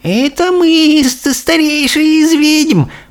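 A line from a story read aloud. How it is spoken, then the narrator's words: Timid creaky voice. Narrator (Russian): проскрипел робкий голос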